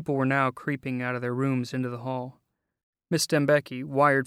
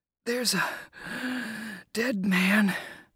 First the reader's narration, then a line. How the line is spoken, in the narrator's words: The kid, who had turned a lovely shade of blue, lowered the inhaler long enough to wheeze